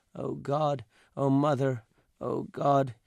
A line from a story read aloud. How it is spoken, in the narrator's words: he moaned, not very loudly, in a sing-song voice